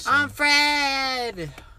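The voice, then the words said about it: High-pitched chipmunk-like character voice. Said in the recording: “he does the freaking chipmunk voice.”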